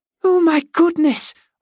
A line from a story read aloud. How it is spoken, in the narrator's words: Olive cried, so excited